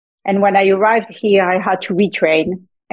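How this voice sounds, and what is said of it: French-accented English. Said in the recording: “as my accent is giving it away, I was not born in the U.S. and I did a lot of my training in France”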